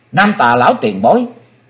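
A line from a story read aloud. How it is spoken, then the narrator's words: Joyful exclamation. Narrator (Vietnamese): Chí Tôn hoan hỷ kêu lên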